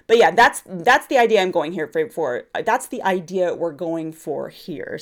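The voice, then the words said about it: Congested voice. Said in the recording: “See, you can tell I have a cold.”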